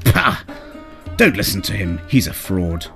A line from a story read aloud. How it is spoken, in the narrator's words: spat out a derisive